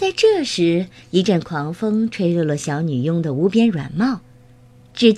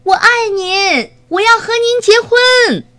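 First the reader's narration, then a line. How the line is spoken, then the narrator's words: Happy shout. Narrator (Chinese): 他高兴地对小女佣喊道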